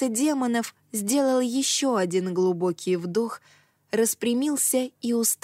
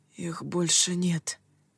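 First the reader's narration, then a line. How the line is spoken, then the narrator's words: Whispered. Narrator (Russian): прошептал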